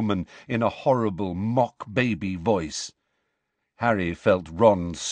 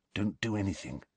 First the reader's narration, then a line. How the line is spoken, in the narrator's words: Harry muttered